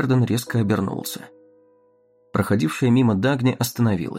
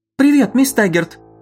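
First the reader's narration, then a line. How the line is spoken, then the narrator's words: Nearly shouting. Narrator (Russian): почти крикнула Лилиан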